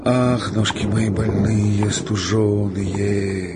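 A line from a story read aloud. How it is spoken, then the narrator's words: Singsong chanting. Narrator (Russian): говорил нараспев Пантелей, не слыша его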